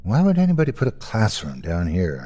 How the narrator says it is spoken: I mumbled to myself

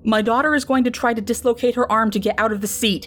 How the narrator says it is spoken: a man yells out to the group

